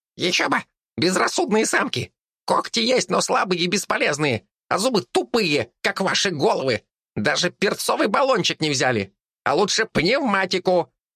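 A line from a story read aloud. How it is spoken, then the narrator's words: Displeased rat squeaking. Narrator (Russian): пищала недовольная крыса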